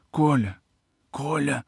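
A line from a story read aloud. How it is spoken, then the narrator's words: Hoarse, sobbing plea. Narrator (Russian): И голос, в котором уже слышались отзвуки иной жизни, хриплым, рыдающим звуком просил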